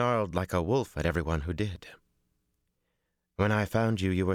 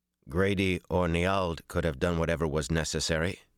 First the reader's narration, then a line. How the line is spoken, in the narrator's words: he said in a flat voice